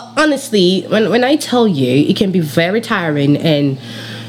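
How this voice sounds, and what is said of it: Usual voice. Nothing is said of it.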